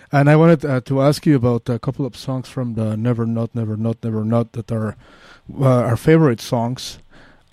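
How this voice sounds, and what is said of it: Mexican Spanish accent in English. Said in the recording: “maybe you noticed my accent. I'm from Mexico City.”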